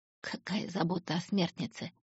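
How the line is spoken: Hoarse. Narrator (Russian): хрипло сказала Оникс

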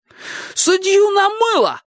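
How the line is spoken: Shouted. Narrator (Russian): закричал Анести

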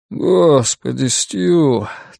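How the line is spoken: Mournful exhale. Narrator (Russian): тоскливо выдохнул он

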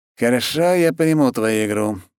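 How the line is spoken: Sighing. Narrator (Russian): вздохнул Доброхотов

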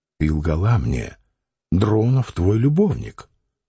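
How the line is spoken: Quiet, contemptuous, angry. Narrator (Russian): подчиняясь вспыхнувшей злобе, он сказал негромко и презрительно

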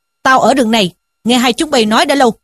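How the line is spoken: Monk's stern shout. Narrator (Vietnamese): một vị hòa thượng quát rằng

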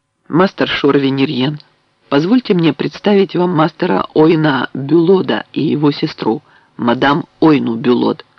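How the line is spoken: Plain. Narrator (Russian): сказал Бэк

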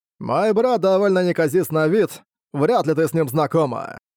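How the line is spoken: Short laugh. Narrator (Russian): хохотнул Сытунань

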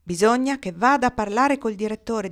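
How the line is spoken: Plain. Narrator (Italian): disse Osa

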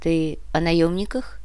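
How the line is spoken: Guilty sigh. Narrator (Russian): Чио виновато вздохнула

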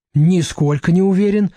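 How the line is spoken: Cheerful reply. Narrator (Russian): бодро отвечает водитель Артур

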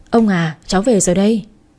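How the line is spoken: Smiling. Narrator (Vietnamese): mỉm cười nói

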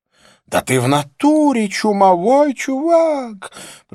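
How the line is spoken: Panicked parrot-like shriek. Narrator (Russian): провизжала Розанна голосом паникующего попугая

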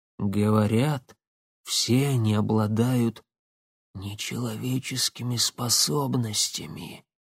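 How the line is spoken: Near whisper. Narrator (Russian): почти шепотом произнес Бердышев

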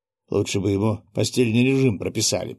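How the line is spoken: Grumbled. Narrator (Russian): проворчал я

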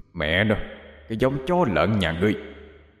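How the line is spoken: Loud slurred stammering shout. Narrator (Vietnamese): hét lớn lên, giọng điệu ngọng nghịu, lắp bắp

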